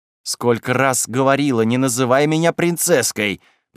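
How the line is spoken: Good-natured grumble. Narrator (Russian): проворчала Шарха, впрочем, достаточно беззлобно

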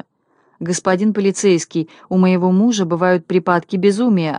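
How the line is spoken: Plain answer from wife. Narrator (Russian): ответила жена

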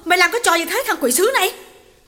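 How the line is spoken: Shouted. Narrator (Vietnamese): hét lên

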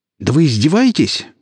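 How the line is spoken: Indignant shout. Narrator (Russian): возмущенно выкрикнул Виктор

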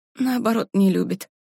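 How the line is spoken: Muttering woman. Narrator (Russian): пробормотала она

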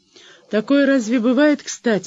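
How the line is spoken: Sigh. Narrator (Russian): вздохнул Делон

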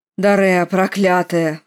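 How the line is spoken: Roaring. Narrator (Russian): взревел Сержорах

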